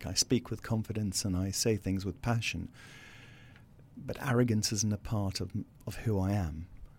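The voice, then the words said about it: South African accent. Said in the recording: “I still have this legacy accent, and the South African accent is often mistaken for arrogance”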